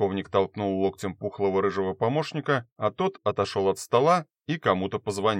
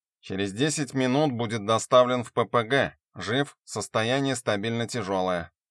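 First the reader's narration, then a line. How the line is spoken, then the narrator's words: Nasal little voice. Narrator (Russian): раздался гнусавый голосок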